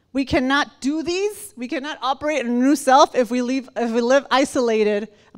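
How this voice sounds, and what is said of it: Speaks with a Spanish-sounding accent. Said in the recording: “I have like a Spanish accent today”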